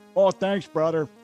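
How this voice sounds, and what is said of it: Attempted Pittsburgh accent. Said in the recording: “That's my attempt at a Pittsburgh accent. He's so much better good. At it than I am.”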